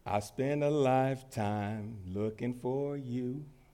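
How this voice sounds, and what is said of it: Singing in a deep voice. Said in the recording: “I'll do my best to give y'all my deep voice.”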